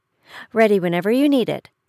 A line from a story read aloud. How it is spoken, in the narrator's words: the old woman replied quickly